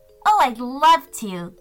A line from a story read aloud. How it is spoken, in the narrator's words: giggled Jade